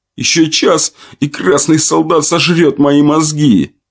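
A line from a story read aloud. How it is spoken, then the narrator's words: Young man groaning. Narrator (Russian): простонал парень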